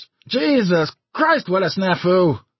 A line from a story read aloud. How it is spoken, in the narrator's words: somebody cried out in shrill disgust